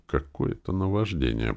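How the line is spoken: Muttering. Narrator (Russian): пробормотал Виктор

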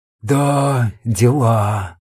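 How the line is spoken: Sighing. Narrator (Russian): вздохнул Фома

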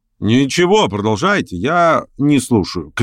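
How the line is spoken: Shouted. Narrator (Russian): крикнул Верховенский

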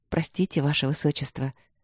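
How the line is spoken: Soft, smiling woman. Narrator (Russian): мягко улыбнулась единственная женщина, Виктория Лыськова

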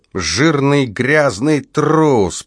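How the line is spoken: Drunken mutter. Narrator (Russian): пьяным голосом бормотал он

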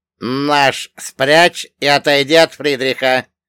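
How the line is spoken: Commanding order, heavy accent. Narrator (Russian): раздался властный приказ второго офицера с ужасным акцентом

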